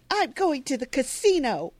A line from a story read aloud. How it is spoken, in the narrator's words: Jenny yells after her